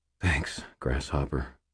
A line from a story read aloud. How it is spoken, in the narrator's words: I said quietly